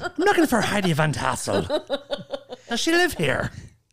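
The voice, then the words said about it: Put-on Irish accent. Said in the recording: “your Irish impression ... I think if you go up a register, it helps the Irish accent.”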